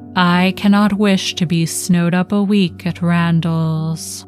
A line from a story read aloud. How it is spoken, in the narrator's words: said only, coolly